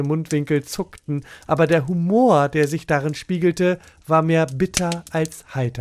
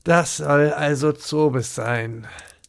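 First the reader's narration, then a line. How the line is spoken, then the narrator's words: Dry, slightly despairing murmur. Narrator (German): Jochen mit einem Anflug von Verzweiflung trocken murmelte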